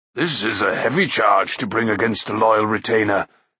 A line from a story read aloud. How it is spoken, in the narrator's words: he added, looking gravely at Taran